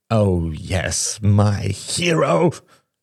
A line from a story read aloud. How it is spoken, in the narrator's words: snarled Shane